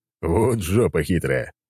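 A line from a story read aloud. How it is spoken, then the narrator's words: Chuckling. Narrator (Russian): хохотнул я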